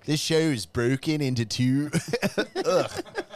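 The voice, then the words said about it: Put-on Philly/Baltimore accent. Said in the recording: “I just sounded like I was from Philly. ... Now that's Baltimore. ... Philly is the same, they have a similar accent.”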